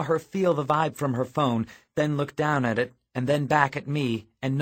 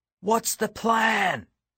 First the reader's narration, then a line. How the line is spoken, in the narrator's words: Daryl shouted in my ear